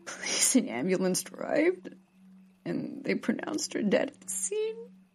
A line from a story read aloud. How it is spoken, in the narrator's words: sobbed Natalie